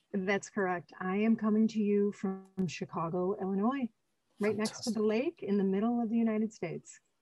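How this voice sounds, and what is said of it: Non-local American accent. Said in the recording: “I can tell by your accent that you're not local to me”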